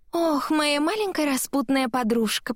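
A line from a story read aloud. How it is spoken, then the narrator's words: Cooing. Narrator (Russian): проворковала она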